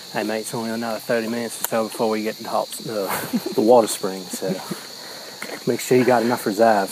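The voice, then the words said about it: Put-on Australian accent, done badly. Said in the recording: “our horrible Australian accent ... I'm not very good at many other accents.”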